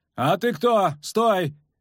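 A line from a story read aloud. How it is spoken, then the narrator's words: Shouting. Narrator (Russian): крикнул длинноволосый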